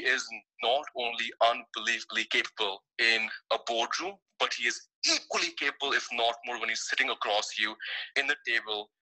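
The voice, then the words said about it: Indian-accented English. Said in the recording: “this Indian accent you're hearing right now”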